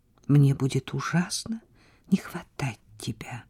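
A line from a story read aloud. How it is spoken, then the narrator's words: Whispered. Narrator (Russian): прошептала она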